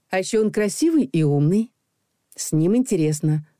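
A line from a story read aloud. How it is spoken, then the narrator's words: Calm. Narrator (Russian): спокойно добавила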